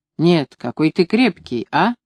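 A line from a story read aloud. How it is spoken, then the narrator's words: Deep warm laughter. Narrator (Russian): смеялась густым, греющим смехом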